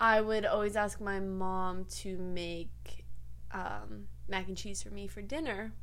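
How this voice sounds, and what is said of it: Usual voice. Nothing is said of it.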